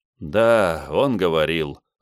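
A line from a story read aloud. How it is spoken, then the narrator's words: Sigh. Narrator (Russian): вздохнул Бенвенуто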